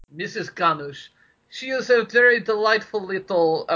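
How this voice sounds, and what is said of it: Put-on ethnic character voice. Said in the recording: “why am I doing the voice? That's incredibly racist.”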